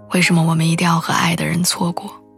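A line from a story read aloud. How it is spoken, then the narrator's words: Choked with tears. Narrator (Chinese): 他哽咽的跟我说道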